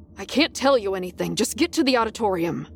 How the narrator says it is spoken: he snapped

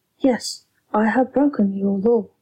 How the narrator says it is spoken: she said

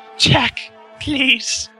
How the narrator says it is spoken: moaned

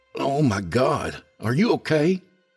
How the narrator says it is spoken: Trey exclaimed

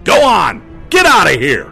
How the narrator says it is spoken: yelled in the most intimidating bellow I could muster

